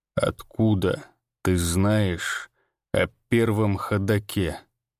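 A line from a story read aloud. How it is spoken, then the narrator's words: Slow question. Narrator (Russian): медленно спросил он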